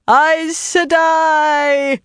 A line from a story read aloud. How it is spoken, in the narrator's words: a woman howled, in tones suitable for announcing the end of the world